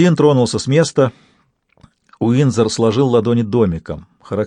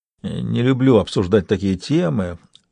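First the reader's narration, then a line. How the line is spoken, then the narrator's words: Mumbling. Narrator (Russian): пробормотал Уиндзор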